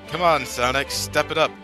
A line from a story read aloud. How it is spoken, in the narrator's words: taunted Mia Carrot